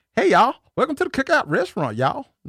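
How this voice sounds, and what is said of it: Put-on country Southern accent. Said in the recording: “That sounds really country.”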